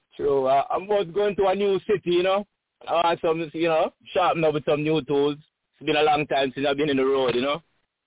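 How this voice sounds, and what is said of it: Jamaican accent. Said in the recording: “he had the same accent you got ... I'm from Jamaica, though”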